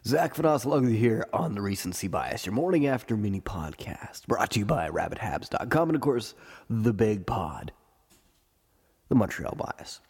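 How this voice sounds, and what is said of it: Congested, sick-sounding voice. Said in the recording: “This is the Recency Bias Cold Edition... I have a cold.”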